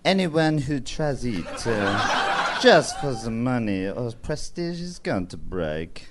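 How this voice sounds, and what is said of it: Put-on French accent. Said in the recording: “in a French accent, please ... was that French accent? ... Yeah, I can do French ... Very good.”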